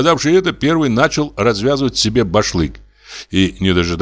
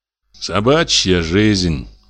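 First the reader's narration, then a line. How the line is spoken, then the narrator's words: Grumble. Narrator (Russian): проворчал почтальон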